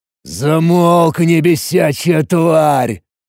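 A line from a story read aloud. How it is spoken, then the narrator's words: Weary growl. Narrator (Russian): Устав слушать этот панический визг, утомленно рыкнул я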